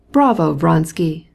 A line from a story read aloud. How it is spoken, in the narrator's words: cried Petritsky